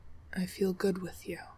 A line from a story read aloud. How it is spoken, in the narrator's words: says quietly